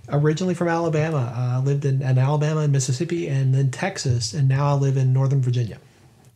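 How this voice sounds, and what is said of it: American Southern accent. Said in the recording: “you are from the United States, but from the southern parts, and I'm going to enjoy listening to your accent ... I do love a good southern accent”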